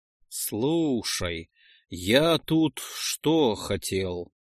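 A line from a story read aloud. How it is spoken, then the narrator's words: Drawn-out drawl. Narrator (Russian): протянул Ролдан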